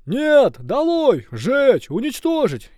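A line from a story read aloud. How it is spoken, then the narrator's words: Angry crowd yelling louder. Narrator (Russian): еще громче завопили недовольные люди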